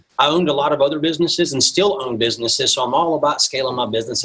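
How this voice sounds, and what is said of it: Southern US accent. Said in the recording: “I'm originally not from the Midwest, as you can probably tell from my accent. I'm originally from the South. I'm from Mississippi originally.”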